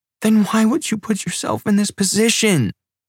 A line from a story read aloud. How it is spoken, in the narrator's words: She cried